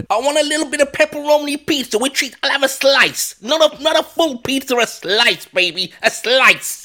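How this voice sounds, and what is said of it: Fake New York accent. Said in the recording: “your little fake New York or New Jersey accent where you're like, pizza, pasta, oh.”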